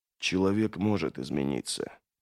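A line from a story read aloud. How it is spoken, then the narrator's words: Uncertain whisper. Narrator (Russian): прошептал Логин, не зная, кому он это говорит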